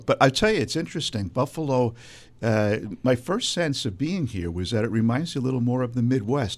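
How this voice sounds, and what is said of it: Brooklyn accent. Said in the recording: “I don't know if you can hear my Brooklyn accent, because I'm originally from Brooklyn”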